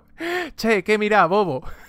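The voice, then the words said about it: Put-on Argentine Spanish accent. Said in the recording (Spanish): “Como argentino me encantaría a ... decir che”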